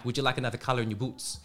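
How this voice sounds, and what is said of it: Put-on Canadian accent. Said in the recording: “this customer had a very heavy Canadian accent ... like saying in a Canadian accent. I can't do it very well ... I just adopted his accent”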